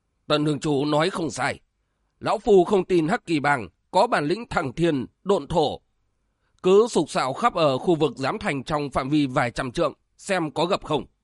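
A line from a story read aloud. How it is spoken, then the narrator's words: Booming loud voice. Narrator (Vietnamese): Giáo trúc đường đường chủ Song Liên Trường Tống Phi từ phía sau cất giọng oang oang nói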